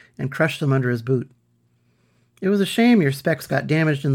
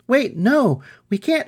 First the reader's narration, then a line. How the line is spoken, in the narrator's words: cried